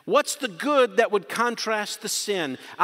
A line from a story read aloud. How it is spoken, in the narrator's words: I yelled, I screamed, I accused